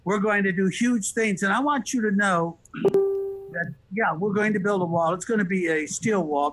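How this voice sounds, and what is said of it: Donald Trump impression. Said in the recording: “Trump impersonator, and can you do an impersonation”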